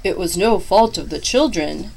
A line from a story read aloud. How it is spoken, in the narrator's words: cried Claus